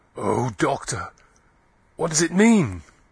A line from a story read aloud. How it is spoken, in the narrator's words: Klim saying, in an agonized voice